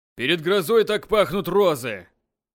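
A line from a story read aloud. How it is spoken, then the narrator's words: Off-key group singing. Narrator (Russian): Жутко фальшиве потянули уже человек 10 из окружения государя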